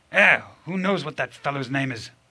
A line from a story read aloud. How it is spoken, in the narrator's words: grumbled the hotel keeper